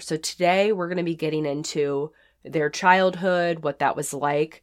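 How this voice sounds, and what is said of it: Sick, under-the-weather voice. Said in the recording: “As you can probably tell from my voice, I'm a little under the weather”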